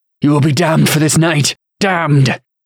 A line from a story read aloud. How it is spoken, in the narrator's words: Delin growled